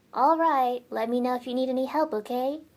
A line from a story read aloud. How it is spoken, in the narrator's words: she said